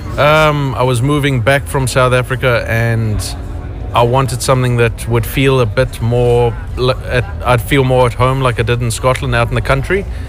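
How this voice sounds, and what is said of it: South African accent. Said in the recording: “that a South African accent I detect? ... Yeah, it's a South African accent.”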